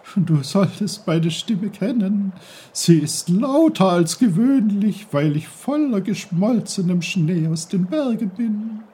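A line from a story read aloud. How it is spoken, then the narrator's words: Brook giggling. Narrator (German): kicherte der Bach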